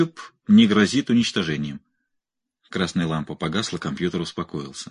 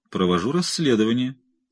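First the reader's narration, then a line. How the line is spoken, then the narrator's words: Calm reply. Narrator (Russian): спокойно ответил Брауэр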